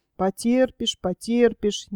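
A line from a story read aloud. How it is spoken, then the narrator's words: Displeased muttering. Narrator (Russian): недовольно забормотал Копытовский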